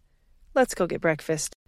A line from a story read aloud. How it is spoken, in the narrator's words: she sighed